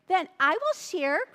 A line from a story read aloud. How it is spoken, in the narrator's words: cried Buzzle Billy